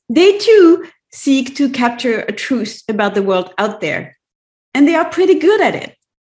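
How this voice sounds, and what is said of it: Strong non-native accent in English. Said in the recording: “in both French and English, despite my strong accent in the latter”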